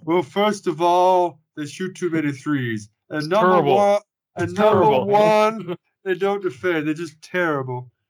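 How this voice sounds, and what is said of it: Imitates another person's voice. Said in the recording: “my Charles Barkley impression”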